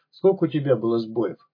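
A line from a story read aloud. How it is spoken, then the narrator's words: Gloomy question. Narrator (Russian): мрачно спросил второй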